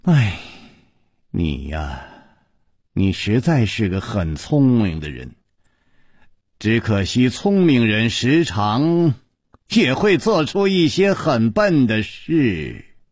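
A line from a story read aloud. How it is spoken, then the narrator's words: Sighing. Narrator (Chinese): 云姬叹了一口气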